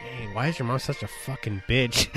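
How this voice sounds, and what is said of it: Loud stage whisper. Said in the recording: “whisper, but I whisper loud”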